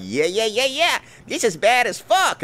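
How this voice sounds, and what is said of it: Stereotypical Black accent voice. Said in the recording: “doing that stereotypical black voice ... the most stereotypical racist bullshit accent and voice”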